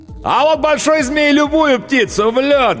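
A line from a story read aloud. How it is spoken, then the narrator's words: Loudest shout. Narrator (Russian): громче всех кричал ковбой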